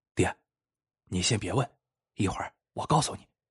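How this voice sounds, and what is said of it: Quiet, hushed voice. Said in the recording (Chinese): “小声说”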